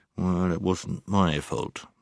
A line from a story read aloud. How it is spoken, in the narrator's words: he only muttered under his breath